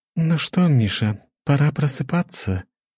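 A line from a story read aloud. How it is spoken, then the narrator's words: Tender whisper in ear. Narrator (Russian): ласково прошептала Лора мне на ухо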